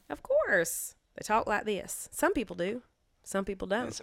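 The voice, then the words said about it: Put-on American Southern accent. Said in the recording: “a southern accent all of a sudden? ... Do they actually talk like that?”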